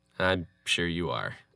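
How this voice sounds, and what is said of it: Sarcastic tone. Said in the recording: “that was sarcasm... Oh, it was 100% sarcasm. I'm very sarcastic.”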